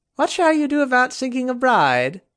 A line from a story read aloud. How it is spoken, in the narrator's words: Kay asked loudly with a charming grin